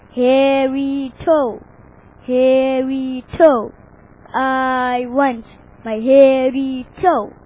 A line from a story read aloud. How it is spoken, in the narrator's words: from the woods a hollow voice rumbled